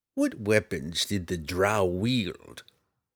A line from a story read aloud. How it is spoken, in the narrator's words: Roddy asked grimly